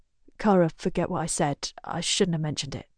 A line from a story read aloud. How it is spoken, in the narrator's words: mutters